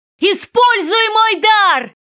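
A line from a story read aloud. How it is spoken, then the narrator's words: Breathless shout. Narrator (Russian): крикнул он, тяжело дыша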